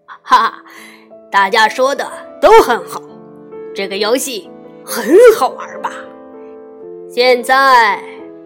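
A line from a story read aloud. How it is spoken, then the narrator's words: Hearty laughter. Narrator (Chinese): 吉老师哈哈大笑起来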